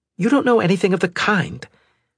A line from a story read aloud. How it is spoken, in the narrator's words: Valerie said hotly, beginning to get angry